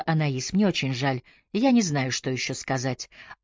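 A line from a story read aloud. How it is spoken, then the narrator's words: Quiet. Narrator (Russian): Она тихо сказала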